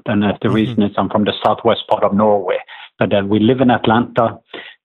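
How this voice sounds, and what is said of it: Norwegian accent. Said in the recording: “I'm from Norway. So when people are listening to my accent, it is a southern accent.”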